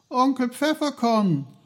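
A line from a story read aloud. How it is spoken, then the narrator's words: Called out. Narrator (German): rief er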